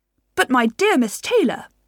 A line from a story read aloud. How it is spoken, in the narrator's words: exclaimed Mr